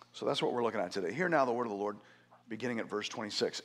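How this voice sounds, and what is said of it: Hoarse, deep, strained voice. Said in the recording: “my voice isn't super ... I have been fighting with a sore throat for the better part of a week ... I'm not trying to be Barry White”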